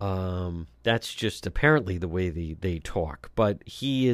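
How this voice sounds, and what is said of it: Usual voice. Nothing is said of it.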